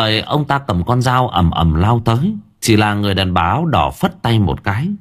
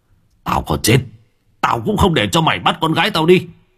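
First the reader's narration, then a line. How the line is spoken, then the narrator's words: Growling old man. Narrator (Vietnamese): Ông Long miệng gầm gừ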